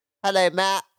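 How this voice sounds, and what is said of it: Imitates another person's voice, poorly. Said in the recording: “that's not a good impression of my voice”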